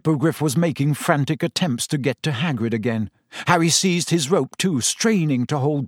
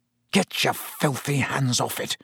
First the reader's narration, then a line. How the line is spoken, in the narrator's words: Harry snarled under his breath